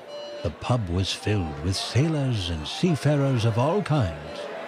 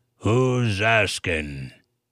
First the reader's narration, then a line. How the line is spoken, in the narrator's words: Captain Hobbs grumbled